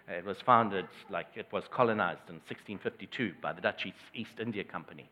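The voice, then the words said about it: South African accent. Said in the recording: “You might pick up from my accent that I originally come from South Africa.”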